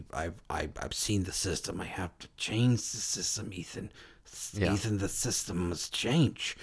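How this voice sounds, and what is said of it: Poor impression of a film villain. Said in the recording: “my worst impression of that dude ... I thought you were doing a Tom Wilkinson ... that's what you sound like Tom Wilkinson in Michael Clayton”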